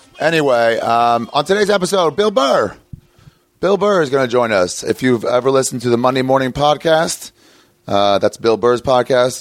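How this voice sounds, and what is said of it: Hoarse, cracking voice. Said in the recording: “Already cracking. Already cracking. ... My voice is better, though. ... it's still shot, but it's better.”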